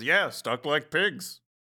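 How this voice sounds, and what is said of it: Imitating Ham from Toy Story. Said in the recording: “I did a Ham voice.”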